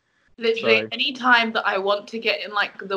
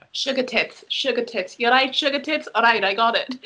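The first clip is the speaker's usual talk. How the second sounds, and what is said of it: Put-on Welsh accent. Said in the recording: “the Welsh accent ... it will literally go straight to Nessa from Gavin and Stacey”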